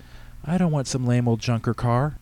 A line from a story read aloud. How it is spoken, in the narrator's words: She moaned